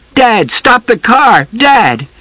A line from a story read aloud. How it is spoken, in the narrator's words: Billy yelled